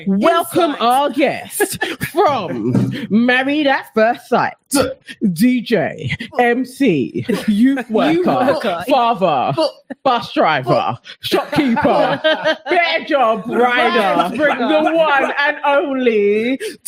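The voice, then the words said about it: Announcer-style MC voice. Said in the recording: “in my best MC voice”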